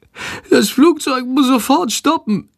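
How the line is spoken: Groaning. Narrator (German): stöhnt Chandor

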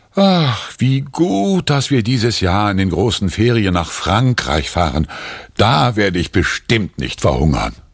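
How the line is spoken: Relieved sigh. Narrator (German): Erleichtert seufzt Papa

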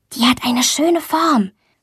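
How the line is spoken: Whispered. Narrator (German): flüstert Luisa

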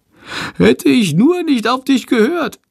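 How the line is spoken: Wailing. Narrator (German): jammert Chandor

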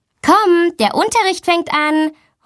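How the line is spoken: Calling out. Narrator (German): ruft sie

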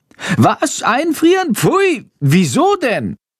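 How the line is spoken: Horrified shriek. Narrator (German): kreischt Chandor entsetzt

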